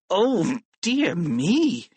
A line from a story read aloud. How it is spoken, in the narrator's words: he cried